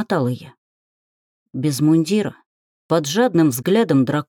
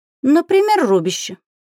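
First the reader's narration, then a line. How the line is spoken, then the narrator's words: Cheerful prompt. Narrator (Russian): весело подсказала Габриэль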